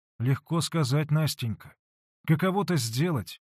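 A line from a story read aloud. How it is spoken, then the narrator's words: Dejected. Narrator (Russian): уныло промолвил Алексей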